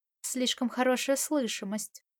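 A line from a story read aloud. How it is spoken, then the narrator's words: Mutter. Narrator (Russian): Он пробормотал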